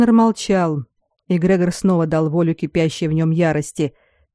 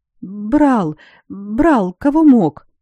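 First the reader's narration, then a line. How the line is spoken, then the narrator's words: Whimpering. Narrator (Russian): заскулил секретарь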